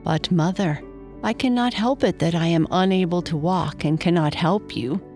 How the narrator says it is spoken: sighed Freyo

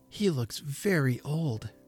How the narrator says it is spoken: whispered Patty

